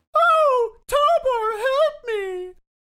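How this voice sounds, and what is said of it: Put-on girlish character voice. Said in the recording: “You can stop doing your girl voices now.”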